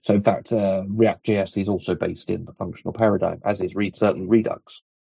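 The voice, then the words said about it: Noticeable unusual accent. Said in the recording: “Apologies also for the funky accent. There's not a lot I can do with it. It doesn't wash out”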